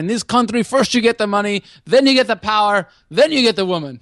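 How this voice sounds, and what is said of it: Mock Tony Montana Scarface accent. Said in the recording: “mock my Tony Montana accent ... it was Scarface”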